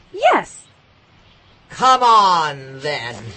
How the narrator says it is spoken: roared the Queen

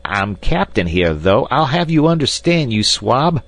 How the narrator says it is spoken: shrieked Snipes with a volley of frightful oaths

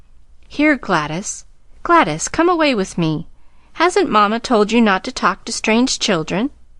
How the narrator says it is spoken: A young woman said sharply

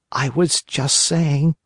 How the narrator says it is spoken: whined the marionette in a whisper

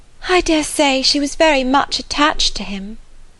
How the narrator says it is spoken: returned Harriet, sighing again

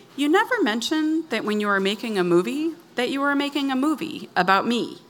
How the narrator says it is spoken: said, as calmly as I could muster

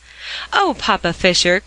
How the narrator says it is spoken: cried Polly in dismay

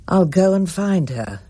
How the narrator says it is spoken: Matthew said wearily

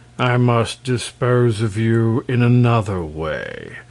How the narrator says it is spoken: said Terribus, regarding the prince gloomily

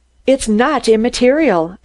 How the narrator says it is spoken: I burst out angrily

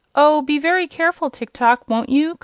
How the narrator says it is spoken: cried the girl

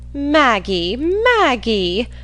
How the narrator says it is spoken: exclaimed Mrs

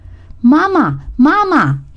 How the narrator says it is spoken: he cried out

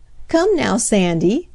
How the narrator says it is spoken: laughed Mrs

